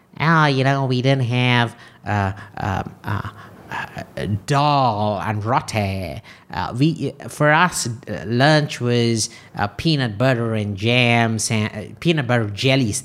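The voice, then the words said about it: Imitates another person's voice. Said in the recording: “Sorry, wrong accent. ... That's not his exact accent, obviously.”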